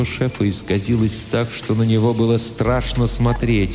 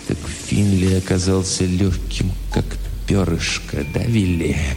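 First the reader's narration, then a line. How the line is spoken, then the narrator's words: Hollow, muffled. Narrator (Russian): глухо сказал Хэмпхилл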